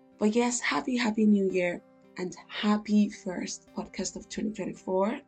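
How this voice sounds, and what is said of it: Unusually deep, low voice. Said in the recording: “I don't know why my voice is like this. I was like, it's giving tenor brother, or it's not giving soprano basically, or bass, one of those bass singers”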